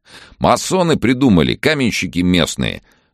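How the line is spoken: Loud explanation. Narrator (Russian): громко объяснил он жене

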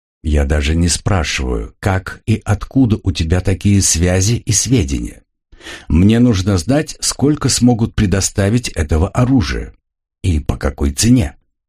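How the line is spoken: Plain. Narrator (Russian): спросил меня Крув

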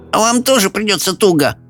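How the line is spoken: Grumbling. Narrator (Russian): буркнула Софи

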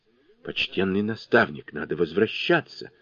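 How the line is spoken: Agitated. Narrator (Russian): взволнованно говорили

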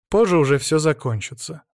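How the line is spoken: Dry curt remark. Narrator (Russian): сухо бросил он

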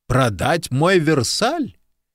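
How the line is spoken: Loud laughter. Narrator (Russian): Куб расхохотался

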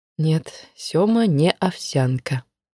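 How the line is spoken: Quiet. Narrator (Russian): тихо произнесла Маша

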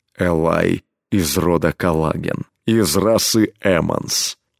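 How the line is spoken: Low impassive steely voice. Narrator (Russian): ответил он изменившимся низким бесстрастным голосом, в котором слышались стальные нотки

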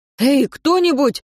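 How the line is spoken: Shout. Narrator (Russian): крикнул Мартин

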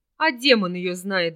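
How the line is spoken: Blacksmith's silly giggle. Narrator (Russian): глупо хихикнул кузнец

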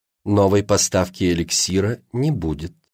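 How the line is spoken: Even, flat voice. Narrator (Russian): ровным голосом произнесла женщина

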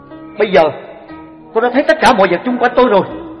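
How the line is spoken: Loud announcement. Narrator (Vietnamese): Luôn lớn tiếng nói cùng với mọi người rằng

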